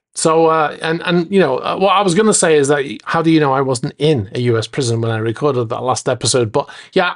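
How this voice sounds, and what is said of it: Non-American English accent. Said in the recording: “you might have noticed from my accent, but I'm not actually from the US”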